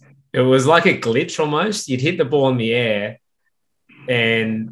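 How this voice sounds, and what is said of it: Usual voice. Nothing is said of it.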